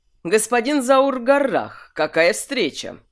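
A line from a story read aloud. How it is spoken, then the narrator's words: Loud. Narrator (Russian): громко сказал он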